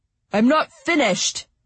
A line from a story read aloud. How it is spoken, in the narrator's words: he slurred in a heated voice